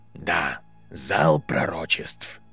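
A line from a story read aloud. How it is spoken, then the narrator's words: Quiet confirmation. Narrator (Russian): тихо подтвердил Альбус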